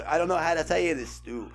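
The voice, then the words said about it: Imitates another person's voice. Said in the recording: “my best Stephen King ... That's not actually that bad.”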